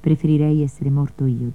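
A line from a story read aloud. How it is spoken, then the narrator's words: Plain. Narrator (Italian): disse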